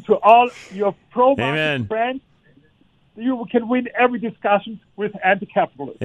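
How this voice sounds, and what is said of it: Foreign accent, non-native English speaker. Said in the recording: “did not grow up here. You could tell by listening to his accent”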